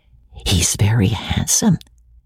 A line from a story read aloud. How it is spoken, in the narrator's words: whispered Rebecca to Amelia, rather loud